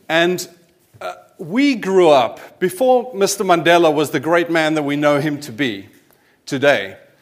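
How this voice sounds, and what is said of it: South African accent. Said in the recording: “I'd grown up as a kiddie in the 80s in South Africa, as my accent might give away”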